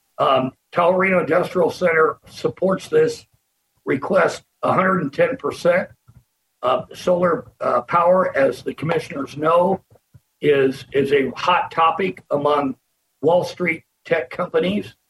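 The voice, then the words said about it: Slightly hoarse voice. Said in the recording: “Excuse my voice. It's a little bit hoarse.”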